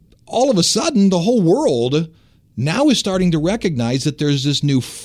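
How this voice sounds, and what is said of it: Usual voice. Nothing is said of it.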